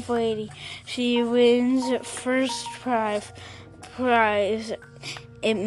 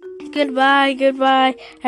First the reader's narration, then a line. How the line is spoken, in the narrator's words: everyone shouted